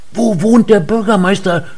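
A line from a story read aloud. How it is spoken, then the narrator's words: Old man shouting. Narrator (German): schrie der alte Mann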